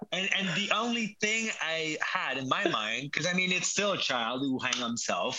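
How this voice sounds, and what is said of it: French accent. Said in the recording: “my French accent might not be that sweet”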